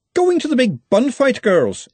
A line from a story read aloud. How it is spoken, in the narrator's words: said Verity cheerfully